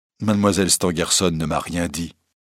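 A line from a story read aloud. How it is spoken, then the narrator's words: Plain. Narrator (French): répondit monsieur Darzac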